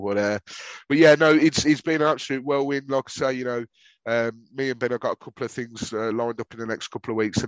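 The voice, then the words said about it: Whiny Brummie accent. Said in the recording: “my whining Brummie accent”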